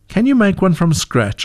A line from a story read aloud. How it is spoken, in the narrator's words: asked Mom